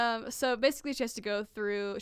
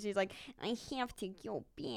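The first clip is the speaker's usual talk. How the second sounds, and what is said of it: Exaggerated Midwestern accent. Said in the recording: “It's like so Minnesotan... Midwest accent”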